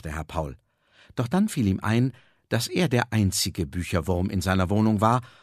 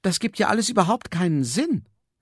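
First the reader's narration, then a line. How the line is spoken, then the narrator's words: Calling out. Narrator (German): rief er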